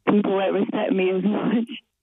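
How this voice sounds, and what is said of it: Electronically disguised voice. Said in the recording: “you've chosen to have the voice changer”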